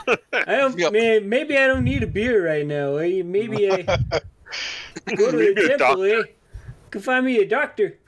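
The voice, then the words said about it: Canadian moose character voice. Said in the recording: “doing the voices of the mooses from Brother Bear ... Canadian comedians ... Bob and Doug McKenzie”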